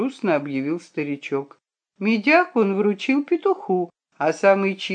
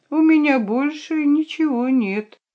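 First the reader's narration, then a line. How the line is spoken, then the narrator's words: Sad, sullen. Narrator (Russian): печально насупился органист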